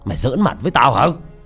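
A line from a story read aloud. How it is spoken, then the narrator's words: Loud shout. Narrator (Vietnamese): Tư Đại quát lớn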